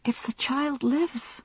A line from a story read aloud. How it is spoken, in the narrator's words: she said, gasping for air